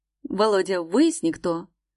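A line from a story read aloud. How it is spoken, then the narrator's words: Sudden growl. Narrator (Russian): Вдруг прорычал он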